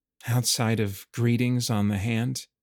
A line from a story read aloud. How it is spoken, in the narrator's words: Roman breathed the words out, afraid to anticipate where this might go